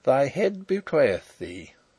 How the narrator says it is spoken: he chuckled

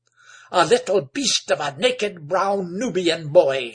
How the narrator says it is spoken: spluttered Egbert

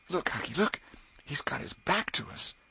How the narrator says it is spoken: Tom choked off and whispered

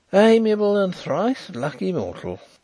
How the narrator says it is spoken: sighed Mr

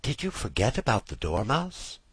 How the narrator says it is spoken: she said timidly

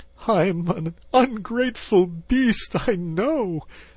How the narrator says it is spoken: sobbed Toad, shedding bitter tears

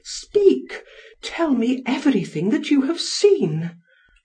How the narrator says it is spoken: exclaimed Nathalie

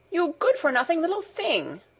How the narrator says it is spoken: exclaimed Data angrily

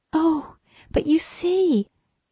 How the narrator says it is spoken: she cried, holding her throat

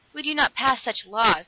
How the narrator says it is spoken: acknowledged Dan bitterly

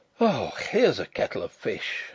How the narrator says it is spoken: I groaned

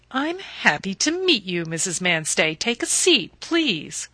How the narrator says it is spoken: the landlady remarked in her prosperous voice, the voice of a woman who can afford to build extensions

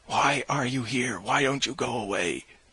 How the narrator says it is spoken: my shouting

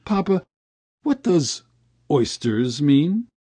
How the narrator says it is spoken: I asked in a husky voice

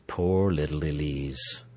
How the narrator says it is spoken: he murmured

